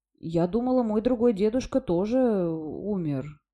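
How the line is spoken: Uncertain. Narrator (Russian): неуверенно произнесла Сьюзен

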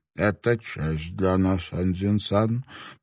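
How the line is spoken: Toothless mumble. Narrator (Russian): прошамкала она

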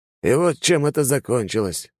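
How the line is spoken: Heavy sigh. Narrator (Russian): он тяжело вздохнул

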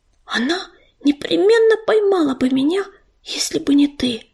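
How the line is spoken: Whisper. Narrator (Russian): прошептала она

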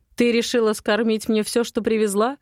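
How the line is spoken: Mocking question. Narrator (Russian): Насмешливо выгнув бровь, спрашивает Матвей

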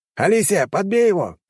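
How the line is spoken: Shouting. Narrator (Russian): крикнул я

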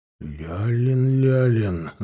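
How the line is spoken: Muttering. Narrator (Russian): забормотал Иван

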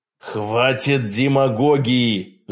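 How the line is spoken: Frayed-nerves growl. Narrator (Russian): Зарычал я, потому что нервы ни у кого не железные

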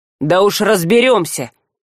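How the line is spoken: Angry snap. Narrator (Russian): в сердцах огрызнулся вещанин

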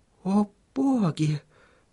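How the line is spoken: Mumbling. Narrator (Russian): пробормотала Сахариса

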